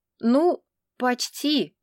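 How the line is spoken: Uncertain female voice. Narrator (Russian): неуверенно сказала женщина

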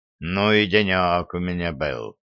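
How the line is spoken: Sighing. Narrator (Russian): Вздохнул

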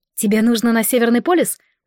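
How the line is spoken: Surprised exclamation. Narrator (Russian): удивленно воскликнула я

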